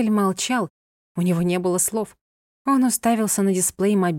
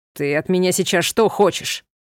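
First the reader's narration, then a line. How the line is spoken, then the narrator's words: Barking snap. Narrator (Russian): рявкнул Анхель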